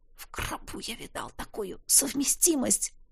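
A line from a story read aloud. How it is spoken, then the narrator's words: Nauseated pained whisper. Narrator (Russian): прошептал я, когда желудок в третий раз вывернулся наизнанку и снова скрутился болезненно тугим жгутом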